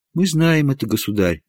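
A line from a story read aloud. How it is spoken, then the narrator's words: Respectful woman. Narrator (Russian): почтительно сказала принцесса Елизавета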